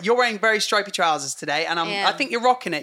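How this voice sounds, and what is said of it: Hoarse, strained voice. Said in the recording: “My voice is going.”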